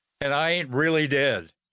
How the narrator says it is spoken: He then chuckled and lightened the mood by adding

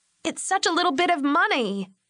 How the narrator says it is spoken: Lori had cried out to him

